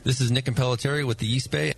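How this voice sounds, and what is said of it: Deep booming radio announcer voice. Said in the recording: “Great radio voice. ... Yeah, he does have a good one. ... it's got just the right sort of bass booming quality and good elocution.”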